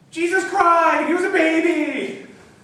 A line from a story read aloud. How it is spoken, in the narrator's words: he cried